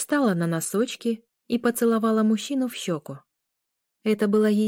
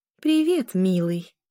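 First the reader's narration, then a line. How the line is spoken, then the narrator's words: Affectionate. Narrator (Russian): произнесла она ласковым тоном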